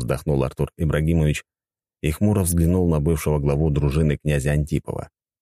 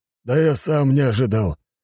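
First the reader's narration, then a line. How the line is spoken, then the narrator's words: Grumbling reply. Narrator (Russian): проворчал в ответ маг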